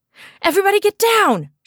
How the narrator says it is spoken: shouted

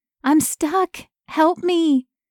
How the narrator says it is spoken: Her voice was merely a whimper

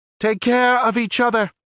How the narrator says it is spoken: Arun yelled

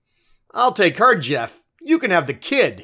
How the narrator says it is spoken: announced, and then wildly cackled again

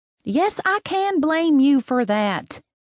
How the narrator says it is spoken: said in a louder voice than I'd intended

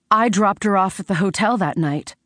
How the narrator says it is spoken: blurted when I couldn't hold it back anymore

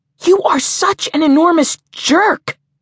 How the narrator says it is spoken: spat Jenna

